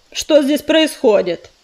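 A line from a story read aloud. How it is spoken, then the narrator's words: Barked. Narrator (Russian): рявкнул он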